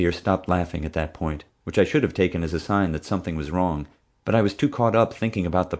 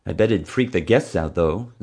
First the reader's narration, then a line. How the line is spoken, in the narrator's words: Xavier laughed